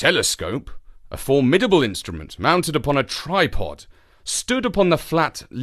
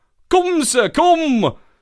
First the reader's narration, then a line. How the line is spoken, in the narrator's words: cried Franklin